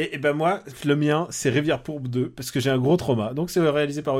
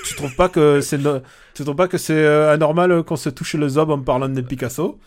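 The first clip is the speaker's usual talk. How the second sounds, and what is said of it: Put-on regional French accent. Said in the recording (French): “J'ai fait l'accent aussi bien que lui... tu fais un meilleur accent que, que, Benoît Magimel”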